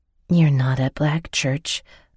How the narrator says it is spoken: I whispered

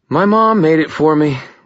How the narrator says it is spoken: Murphy sighed

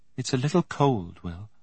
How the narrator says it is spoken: said gently

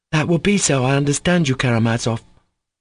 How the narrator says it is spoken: cried Kolya with flashing eyes

